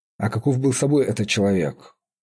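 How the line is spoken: Plain question. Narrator (Russian): спросил Редмайн

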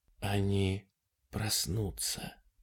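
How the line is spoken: Whispered reply. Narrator (Russian): шепотом ответил директор

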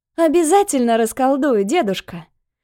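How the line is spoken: Laughing. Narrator (Russian): засмеялась Нюся

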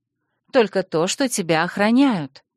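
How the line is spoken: Calm admission. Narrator (Russian): спокойно призналась

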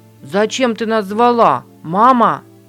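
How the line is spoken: Breathless exclamation. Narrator (Russian): Запыхавшись, воскликнул Дуэйн

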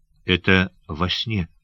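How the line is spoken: Whisper. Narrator (Russian): прошептал Сандакан

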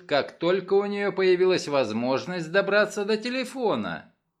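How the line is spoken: Dry remark. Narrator (Russian): сухо заметила София Атвуд

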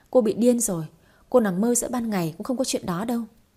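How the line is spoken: Scornful laugh. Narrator (Vietnamese): Ngân Hà bật cười khinh bỉ

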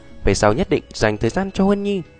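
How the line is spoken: Gentle, soothing. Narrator (Vietnamese): ôn nhu an ủi nói

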